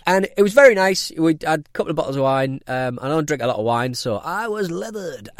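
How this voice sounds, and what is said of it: Speaks with a strong regional accent. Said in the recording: “I can't say this without my accent really taking over ... I just sound stupid saying it”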